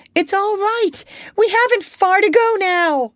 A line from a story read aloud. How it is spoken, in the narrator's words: Chee-Chee shouted